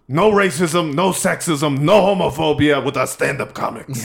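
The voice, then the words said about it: Bernie Sanders impression. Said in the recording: “did a Bernie impression”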